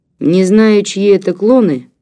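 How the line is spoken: Gloomy grumble. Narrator (Russian): мрачно буркнул Васька

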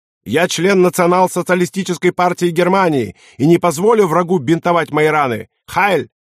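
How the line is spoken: Sudden yell. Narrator (Russian): Неожиданно оберст заорал

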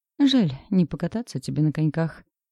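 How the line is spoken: Sighing. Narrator (Russian): вздохнул Макс

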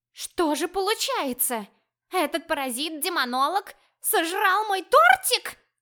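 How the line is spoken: Small creature's wounded howl. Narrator (Russian): Раненым тигром взвыла маленькая розовая кошечка

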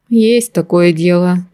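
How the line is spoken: Sad sigh. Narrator (Russian): печально вздохнул маг

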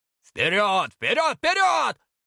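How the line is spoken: Yelling boar. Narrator (Russian): орал кабан

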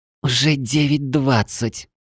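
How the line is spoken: Muttering. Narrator (Russian): пробормотала волшебница

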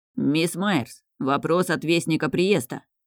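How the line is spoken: Deep bass, unknown man. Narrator (Russian): пробасил незнакомый мужчина

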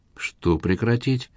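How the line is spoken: Soft gentle question. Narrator (Russian): мягко спросила она

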